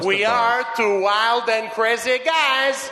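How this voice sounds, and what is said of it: Steve Martin impression. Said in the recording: “Did you actually do a Steve Martin impression?”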